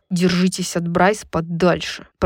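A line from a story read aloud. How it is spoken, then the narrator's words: Growled. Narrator (Russian): прорычал Рун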